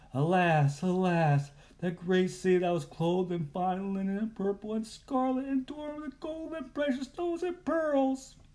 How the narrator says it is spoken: The merchants weeping and wailing, saying

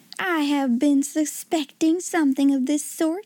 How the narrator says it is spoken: she exclaimed

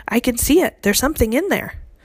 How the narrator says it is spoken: who was also staring into the glass jar, cried out

